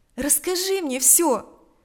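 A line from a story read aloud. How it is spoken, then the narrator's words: Compassionate exclamation. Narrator (Russian): воскликнула она в порыве сострадания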